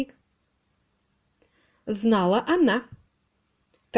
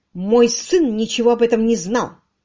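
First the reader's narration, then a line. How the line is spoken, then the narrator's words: Sharp interruption. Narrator (Russian): резко оборвала она Родерика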